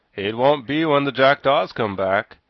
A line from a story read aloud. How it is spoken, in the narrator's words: growled the Sawhorse